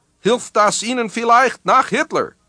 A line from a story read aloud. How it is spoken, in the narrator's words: Mishnov yelled with delight